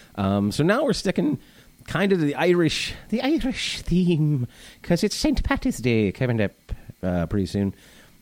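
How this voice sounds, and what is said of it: Bad put-on Irish accent. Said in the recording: “That is the worst. That's my Irish accent. That's also my impression of Saoirse Ronan, the actress”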